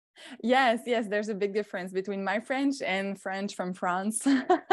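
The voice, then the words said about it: French Canadian accent. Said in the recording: “The French Canadian accent”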